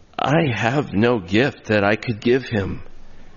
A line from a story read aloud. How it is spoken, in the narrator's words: he said sadly